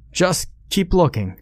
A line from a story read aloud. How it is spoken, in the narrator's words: the intercom cried